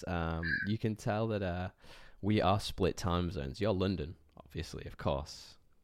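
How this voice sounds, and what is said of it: Tired, just-woken-up voice. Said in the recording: “I'm very tired. I just woke up, so you can probably tell from my voice.”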